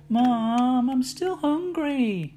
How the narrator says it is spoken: he whined

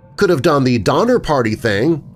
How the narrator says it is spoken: Clarissa jeered irreverently

